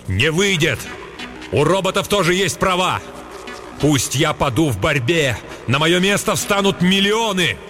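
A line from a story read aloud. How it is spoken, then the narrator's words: Shout. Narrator (Russian): крикнул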